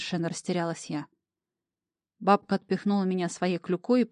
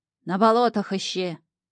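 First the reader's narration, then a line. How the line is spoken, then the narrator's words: Barked farewell. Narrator (Russian): гаркнула она на прощание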